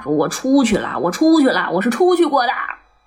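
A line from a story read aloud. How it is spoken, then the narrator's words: Shouting. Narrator (Chinese): 大喊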